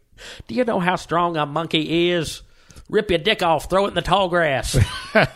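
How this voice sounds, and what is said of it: Dave Chappelle impression. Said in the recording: “that's a Dave Chappelle accent”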